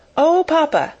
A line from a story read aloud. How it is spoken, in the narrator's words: she cried